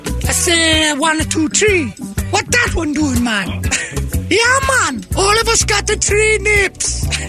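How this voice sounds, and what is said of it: Put-on accent, not done well. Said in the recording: “why y'all say I'm not good at this accent?”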